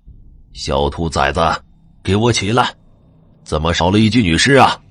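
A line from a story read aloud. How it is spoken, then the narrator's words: Roaring. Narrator (Chinese): 师傅 大吼道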